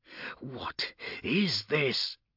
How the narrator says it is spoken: hissed one of the arbitrators

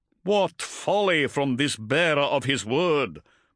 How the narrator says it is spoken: Motep intoned

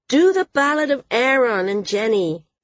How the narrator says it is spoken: someone called out

